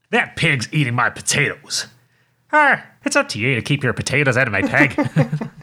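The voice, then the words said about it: Put-on Northern Irish accent. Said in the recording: “In an Irish accent, please. ... That's a Northern Irish accent as well. ... You gave a little regional kick.”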